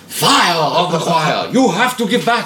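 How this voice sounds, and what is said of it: Televangelist preacher voice. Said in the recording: “doing my Benny Hinn voice.”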